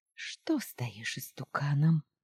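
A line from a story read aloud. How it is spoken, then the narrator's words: Heated whisper. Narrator (Russian): шептала жарко хозяйка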